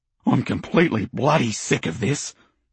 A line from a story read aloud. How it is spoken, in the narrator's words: he growls